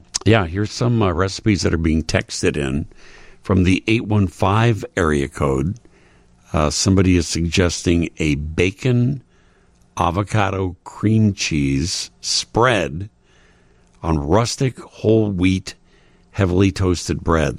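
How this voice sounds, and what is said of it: Raspy voice. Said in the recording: “excuse my voice here. I don't know what's happened in the last half hour of the show. It's gotten all raspy on me.”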